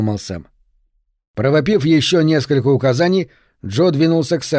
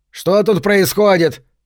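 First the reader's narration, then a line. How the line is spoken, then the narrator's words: Barked. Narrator (Russian): рявкнул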